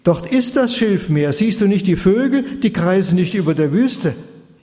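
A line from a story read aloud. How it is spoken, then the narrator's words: Calling across. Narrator (German): Haram rief hinüber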